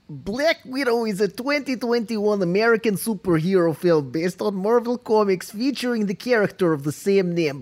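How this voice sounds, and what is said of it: Put-on Russian accent. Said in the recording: “with a Russian accent... Yes, please do it with a Russian accent.”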